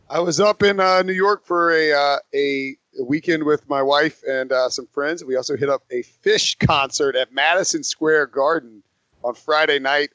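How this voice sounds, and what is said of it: Slightly rough, wonky voice. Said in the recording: “my voice is a little bit wonky this morning”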